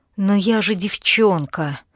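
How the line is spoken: Moaning. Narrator (Russian): простонала Алана

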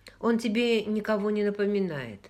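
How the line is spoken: Plain question. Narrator (Russian): спросил Джейми

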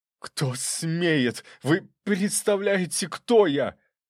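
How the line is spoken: Yelling with slight lisp. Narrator (Russian): заорал он немного шепеляво из-за ушибленных губ

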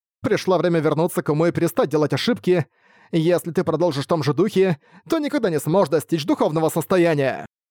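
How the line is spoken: Monk's shout. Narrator (Russian): монаха Юань-куна, когда он крикнул

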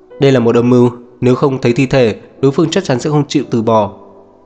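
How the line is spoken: Irritated raised voice. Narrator (Vietnamese): Diệp Uyên bực bội nâng cao giọng

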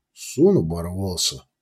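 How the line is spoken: Quiet reply. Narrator (Russian): негромко ответил Ундар

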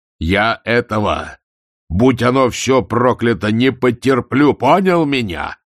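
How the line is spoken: Bellowed. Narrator (Russian): заорал Ваймс

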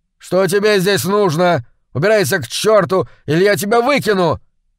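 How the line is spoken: Yelled. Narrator (Russian): заорал

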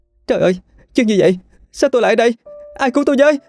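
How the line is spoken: Shrill scream. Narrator (Vietnamese): tiếng hét the thé

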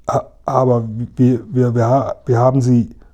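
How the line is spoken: Stammering. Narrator (German): stammelte Seppl

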